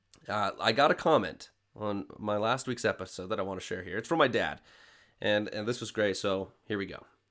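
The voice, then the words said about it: Nasal, congested voice. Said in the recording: “my voice sounds a little bit more nasally than normal”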